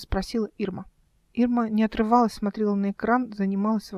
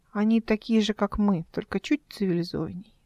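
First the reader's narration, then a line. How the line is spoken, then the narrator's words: Plain. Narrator (Russian): ответила она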